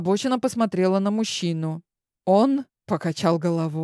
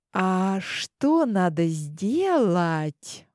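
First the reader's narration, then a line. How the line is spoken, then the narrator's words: Ingratiating chirping. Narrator (Russian): Вкрадчивым тоном защебетала я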